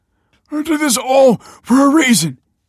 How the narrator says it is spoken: grunted, struggling

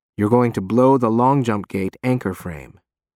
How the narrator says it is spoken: says calmly

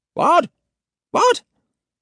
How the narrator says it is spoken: chirps Basil Northcote Robinson

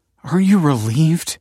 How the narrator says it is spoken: He said, panting

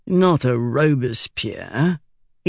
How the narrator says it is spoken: said gloomily

